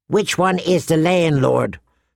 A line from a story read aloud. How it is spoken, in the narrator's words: Chella asked